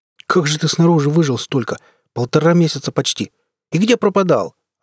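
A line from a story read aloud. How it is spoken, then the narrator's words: Joyful yelling. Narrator (Russian): радостно орал Геннадий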